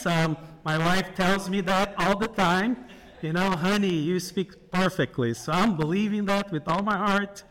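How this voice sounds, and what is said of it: Brazilian accent in English. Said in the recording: “your friend here from Brazil... if you hear an accent”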